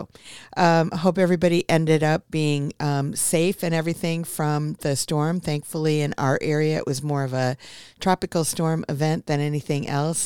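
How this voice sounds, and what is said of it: Hoarse, froggy voice. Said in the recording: “my voice is a little froggy this morning”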